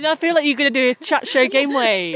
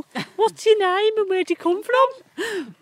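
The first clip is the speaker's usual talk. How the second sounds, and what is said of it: Put-on Brummie accent. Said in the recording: “I did it in a Brummy accent, not Scouse.”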